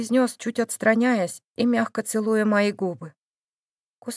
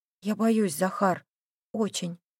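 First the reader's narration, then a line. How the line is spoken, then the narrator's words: Quiet, guilty. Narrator (Russian): произнесла тихо, нарушая тишину и чувствуя свою вину перед ним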